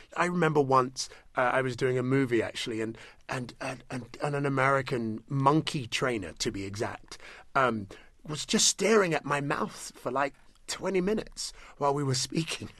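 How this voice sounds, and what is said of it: British accent. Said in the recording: “And is the currency your accent? ... It's the accent. ... You never feel more British than when you're in America”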